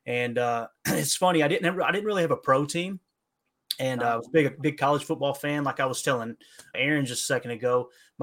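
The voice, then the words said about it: Appalachian accent. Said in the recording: “the whole Appalachian thing going on here with the accent”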